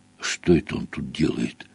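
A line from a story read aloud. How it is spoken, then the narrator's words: Whispered. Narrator (Russian): прошептал Гарри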